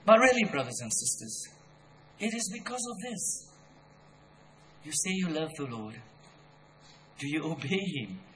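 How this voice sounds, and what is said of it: Angry, scolding preaching voice. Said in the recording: “I sound so angry, scolding people this morning”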